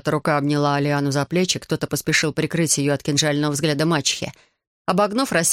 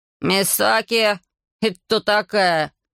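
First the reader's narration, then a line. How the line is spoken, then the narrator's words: Grumbling. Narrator (Russian): проворчал Рейца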